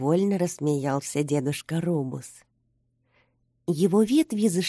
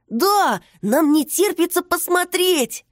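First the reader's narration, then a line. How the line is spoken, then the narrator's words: Eager exclamation. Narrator (Russian): воскликнул Тоша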